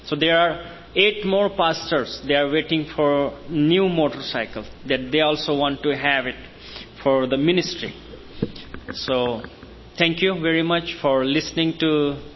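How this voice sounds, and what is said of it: Indian-accented, non-native English. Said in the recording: “my Indian accent, my broken English”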